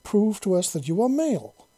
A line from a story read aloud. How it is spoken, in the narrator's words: she exclaimed, her voice sounding exasperated and almost worried